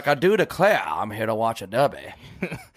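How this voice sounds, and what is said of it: Put-on Southern accent. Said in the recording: “I'm gonna automatically just have a Southern accent for no reason.”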